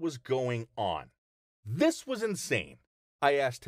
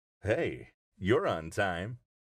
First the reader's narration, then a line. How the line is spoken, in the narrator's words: he said in a flirty voice